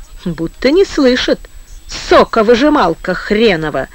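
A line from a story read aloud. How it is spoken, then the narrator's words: Persistent mocking grumble. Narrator (Russian): упорно пилил моторист и сам себе насмешливо доверял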